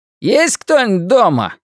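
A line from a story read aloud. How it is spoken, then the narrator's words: Shouted. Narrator (Russian): крикнул он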